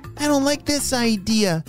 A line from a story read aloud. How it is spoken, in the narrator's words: cried Adu